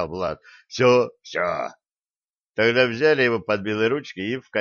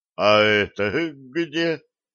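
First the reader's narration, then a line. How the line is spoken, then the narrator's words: Sleepy navigator asking. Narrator (Russian): сонно спросил штурман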